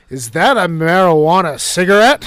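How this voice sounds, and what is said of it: Prim, tattletale-like tone. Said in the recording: “in my narkiest voice”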